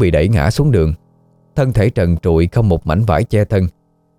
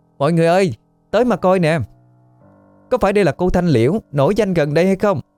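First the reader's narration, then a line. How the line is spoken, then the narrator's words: Girl, shrill mocking shout. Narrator (Vietnamese): một cô gái trong nhóm hét lớn, giọng the thé đầy mỉa mai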